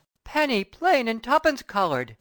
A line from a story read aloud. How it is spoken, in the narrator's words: he exclaimed pensively